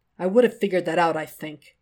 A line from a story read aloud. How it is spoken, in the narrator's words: Jack says dryly over his shoulder